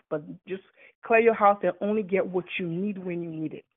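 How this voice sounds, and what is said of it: Distinct accent. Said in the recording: “your accent is absolutely beautiful... Don't sound that authentic, though”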